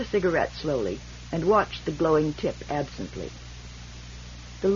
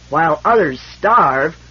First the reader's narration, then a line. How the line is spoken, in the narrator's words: roared Fran suddenly with a mighty blow of his fist upon the arm of his chair